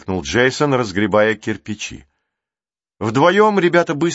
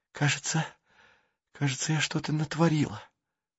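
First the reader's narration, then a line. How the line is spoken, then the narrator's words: Whisper. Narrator (Russian): прошептала она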